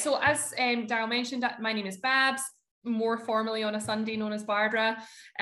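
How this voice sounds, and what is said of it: Scottish accent. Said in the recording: “Hopefully they can keep up with the Scottish accent. I'll speak nice and slowly.”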